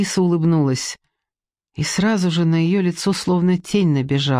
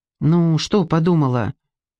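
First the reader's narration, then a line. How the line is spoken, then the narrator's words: Plain. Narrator (Russian): спросил Тим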